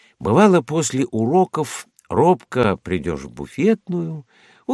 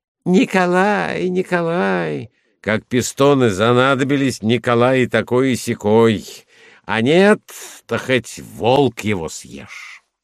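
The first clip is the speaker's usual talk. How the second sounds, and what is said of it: Mocking imitation of the narrator. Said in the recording (Russian): “И он начинал передразнивать меня”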